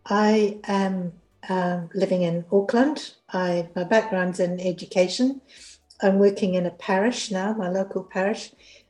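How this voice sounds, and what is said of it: Hoarse voice. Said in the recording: “today I've got a terrible cold... So I may sound a bit hoarse.”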